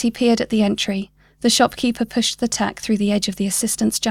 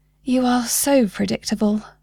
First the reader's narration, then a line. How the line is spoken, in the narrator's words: sighed